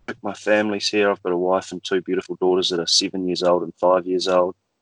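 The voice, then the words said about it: New Zealand accent. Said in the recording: “you can probably tell for anyone that knows the difference between an Australian and New Zealand accent that I'm not originally from Australia. I'm from New Zealand”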